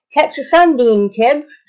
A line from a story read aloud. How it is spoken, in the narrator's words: she said, cheerfully